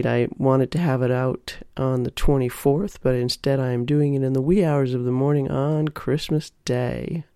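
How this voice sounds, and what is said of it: Unusually deep voice, sounds sick. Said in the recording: “my voice is a little off here. It's especially deep. I'm getting over a cold”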